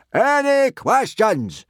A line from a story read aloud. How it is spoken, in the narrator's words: boomed Gobber